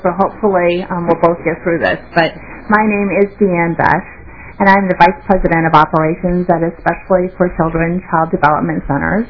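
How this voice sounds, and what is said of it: Congested voice with a cold. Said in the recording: “I have a bit of a cold”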